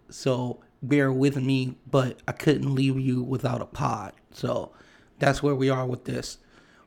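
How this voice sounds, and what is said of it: Strained, fading hoarse voice. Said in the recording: “if you can hear in my voice, I'm losing it a little bit”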